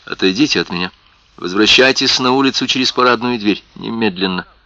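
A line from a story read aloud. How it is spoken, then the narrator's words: Hurried low voice. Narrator (Russian): Исраэль торопливо сказал тихим голосом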